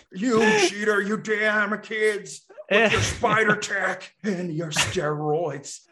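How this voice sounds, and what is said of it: Old man voice. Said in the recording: “My old man voice.”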